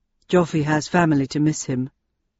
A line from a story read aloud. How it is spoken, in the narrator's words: said Landon quietly